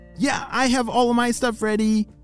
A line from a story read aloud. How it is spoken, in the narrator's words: shouted Lucy